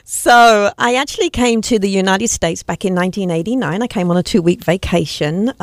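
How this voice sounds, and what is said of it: English accent. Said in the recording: “with that accent, you're going to have to tell us where you're from ... I was born and raised in England in the university city of Cambridge.”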